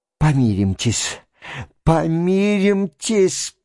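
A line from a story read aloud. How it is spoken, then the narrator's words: Convulsive whisper. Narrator (Russian): прошептал он ему судорожным шепотом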